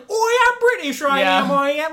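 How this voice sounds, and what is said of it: Exaggerated bad British accent. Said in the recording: “his accent, which Hugh Laurie has referred to as being tantamount to an act of war ... I didn't know a British accent could be racist”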